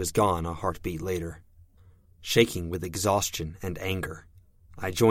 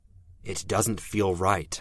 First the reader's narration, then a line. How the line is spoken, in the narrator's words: I said